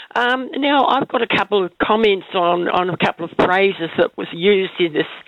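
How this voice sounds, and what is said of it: Strange-sounding voice with a cold. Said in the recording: “my voice sounds a bit strange, I've got a cold.”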